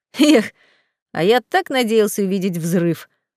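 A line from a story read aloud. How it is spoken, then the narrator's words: Snorting, smirking. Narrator (Russian): Хмыкнул паразит, усмехнулся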